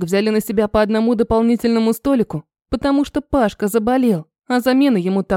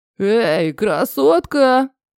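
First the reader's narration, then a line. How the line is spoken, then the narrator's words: Drunken voice. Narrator (Russian): нетрезвым голосом сказал один из посетителей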